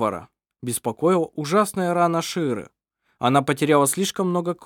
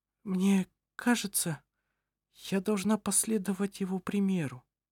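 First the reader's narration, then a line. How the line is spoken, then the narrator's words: Weak voice. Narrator (Russian): сказала она слабым голосом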